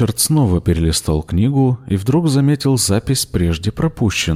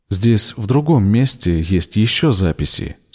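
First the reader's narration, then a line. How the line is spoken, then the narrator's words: Plain. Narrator (Russian): сказал он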